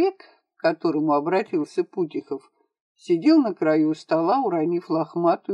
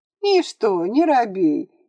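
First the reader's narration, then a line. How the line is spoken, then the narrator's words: Giggle. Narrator (Russian): хихикнул Путихов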